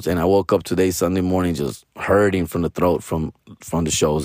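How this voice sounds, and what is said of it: Raspy, tired-sounding voice. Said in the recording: “in the decimals of my voice, but it's raspy. My throat is tired from the weekend ... all day I've been with this raspy voice”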